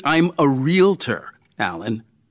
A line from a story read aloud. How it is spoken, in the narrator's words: I said more harshly than I intended